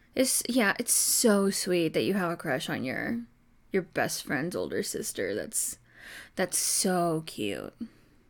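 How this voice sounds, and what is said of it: Sarcastic mock-sweet tone. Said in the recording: “Yes, I'm being sarcastic.”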